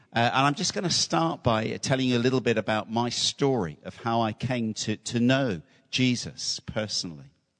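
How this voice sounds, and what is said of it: British English accent. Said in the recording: “You can probably tell from my accent, I'm from not from South Africa. I'm from the United Kingdom.”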